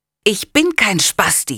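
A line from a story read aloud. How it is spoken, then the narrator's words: Hissing angrily. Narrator (German): faucht er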